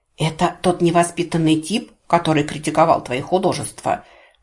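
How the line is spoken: Loud whisper. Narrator (Russian): громким шепотом спросил Анджей

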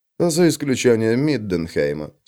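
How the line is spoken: Calm agreement. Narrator (Russian): спокойно согласился Макс

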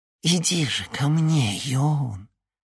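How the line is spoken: Unexpectedly tender, melodious voice. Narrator (Russian): Неожиданно нежным и мелодичным голосом сказала она

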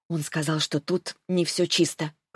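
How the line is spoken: Whisper. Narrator (Russian): прошептала я

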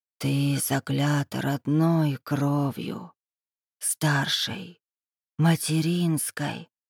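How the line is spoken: Hissing whisper. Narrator (Russian): свистящий шепот в ночи

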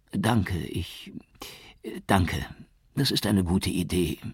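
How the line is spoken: Stammered. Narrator (German): stotterte

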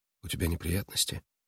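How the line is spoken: Quiet question. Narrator (Russian): тихо спросила

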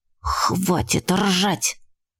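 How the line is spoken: Urgent embarrassed hiss. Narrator (Russian): зашипела я, потому что коситься в нашу сторону начали все, кто стоял поблизости

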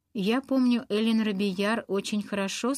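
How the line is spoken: Plain. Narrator (Russian): сказала миссис Батлер

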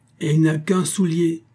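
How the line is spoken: Angry exclamation. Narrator (French): s'écrie le meilleur des oncles, devenu terrible

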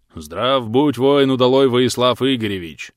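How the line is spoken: Deep bass. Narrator (Russian): пробасил

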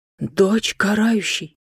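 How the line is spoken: Reverent crowd whisper. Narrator (Russian): В нестройных рядах сразу пробежалась волна священного шепота

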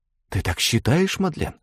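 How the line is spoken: Loud whisper. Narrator (Russian): громким шепотом произнесла Агата

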